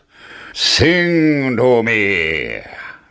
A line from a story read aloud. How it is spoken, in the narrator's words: roared the giant